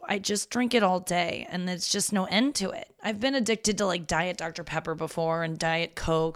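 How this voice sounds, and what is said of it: Gravelly, husky voice. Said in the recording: “My voice is coming in real gravelly today... I'm husky as shit... it's just the way my voice is”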